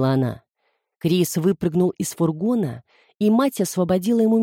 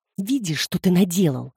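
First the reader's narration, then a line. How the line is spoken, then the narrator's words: Hiss. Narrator (Russian): зашипела Люси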